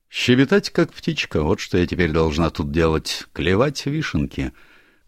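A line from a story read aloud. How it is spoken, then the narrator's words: Gloomy. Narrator (Russian): мрачно произнесла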